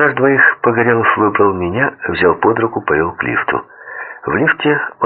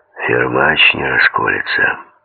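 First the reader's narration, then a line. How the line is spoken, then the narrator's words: Hoarse voice. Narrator (Russian): сиплым голосом сказал Погорелов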